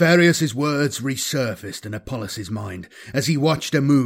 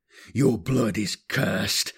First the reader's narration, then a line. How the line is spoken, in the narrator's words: Apollos snarled